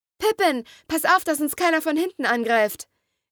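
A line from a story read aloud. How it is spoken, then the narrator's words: Calling out. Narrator (German): rief Serafina dem kleinen Kobold zu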